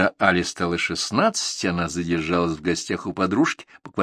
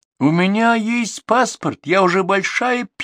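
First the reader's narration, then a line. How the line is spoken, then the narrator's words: Squeaky, pained. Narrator (Russian): пискнула Али, когда мама в лифте больно взяла ее за ухо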